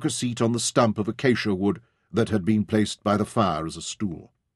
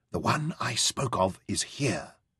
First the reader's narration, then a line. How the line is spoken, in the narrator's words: said softly